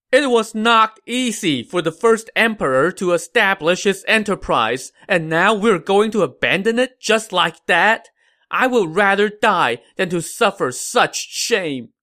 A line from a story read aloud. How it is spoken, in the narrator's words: Liu Chen now wept bitterly and shouted